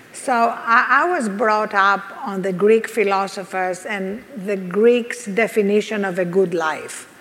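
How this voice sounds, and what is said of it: Greek accent. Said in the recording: “I'm Greek, as you can hear from this accent.”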